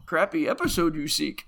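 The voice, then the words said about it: Bad Yoda character voice. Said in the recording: “the worst Yoda accent I've ever heard”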